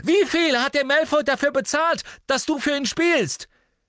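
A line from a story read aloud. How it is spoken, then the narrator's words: Desperate shout. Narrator (German): rief Harry in seiner Verzweiflung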